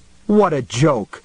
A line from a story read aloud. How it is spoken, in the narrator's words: the rotting thing cried indignantly